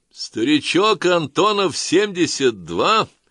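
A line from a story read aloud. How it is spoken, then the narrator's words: Cheerful shout. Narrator (Russian): весело крикнул Белов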